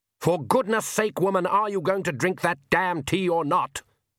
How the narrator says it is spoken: roared the Count

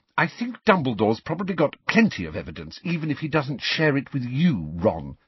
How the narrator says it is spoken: snapped Hermione

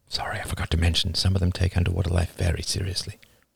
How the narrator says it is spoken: David whispered out of the side of his mouth

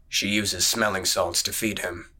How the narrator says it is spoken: muttered

